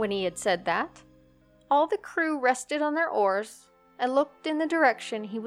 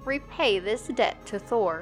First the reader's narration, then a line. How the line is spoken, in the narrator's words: said solemnly